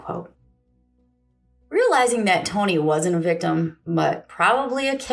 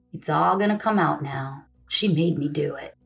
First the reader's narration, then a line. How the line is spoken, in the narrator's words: in a calm voice, he said